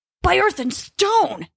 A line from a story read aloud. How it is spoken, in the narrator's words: he yelled, struggling to be heard over the wind